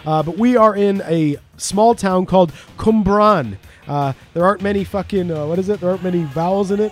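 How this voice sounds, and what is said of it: Canadian accent, not Welsh. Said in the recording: “as you can tell from my accent, I don't sound like I'm Welsh... No, you're Canadian.”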